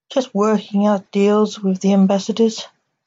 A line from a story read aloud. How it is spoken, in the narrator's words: said Fred